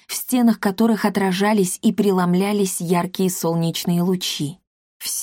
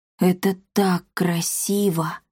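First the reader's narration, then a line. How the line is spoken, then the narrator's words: Enchanted whisper. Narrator (Russian): зачарованно прошептал Триш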